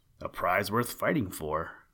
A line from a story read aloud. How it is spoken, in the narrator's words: murmured the people